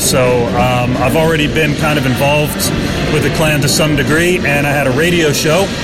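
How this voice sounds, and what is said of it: American Baltimore accent. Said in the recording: “I'm sure a few folk have picked up your accent. Where are you from originally? ... I'm originally from Baltimore, which is on the east coast of the United States”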